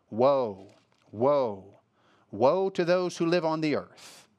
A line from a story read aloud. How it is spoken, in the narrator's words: an eagle crying out in a loud voice